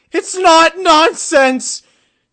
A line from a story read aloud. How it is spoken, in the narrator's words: Spike shouted